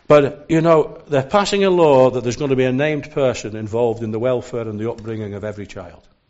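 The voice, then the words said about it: Non-Scottish accent. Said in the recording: “you can tell from the accent it's not really the land of my birth”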